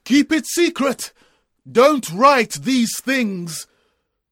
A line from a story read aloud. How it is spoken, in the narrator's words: a voice from heaven shouted